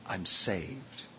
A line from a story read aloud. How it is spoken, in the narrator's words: The heart whispers